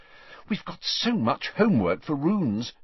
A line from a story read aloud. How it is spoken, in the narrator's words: she said anxiously